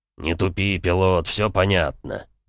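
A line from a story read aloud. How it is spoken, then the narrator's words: Grumbled. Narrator (Russian): буркнул Эмик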